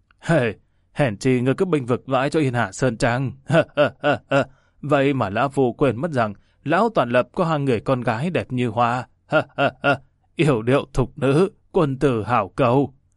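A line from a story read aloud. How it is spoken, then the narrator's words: Smiling. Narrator (Vietnamese): Trường Ly Nhất Điều mỉm cười nói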